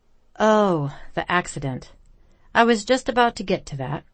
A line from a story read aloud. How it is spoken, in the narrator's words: he sighed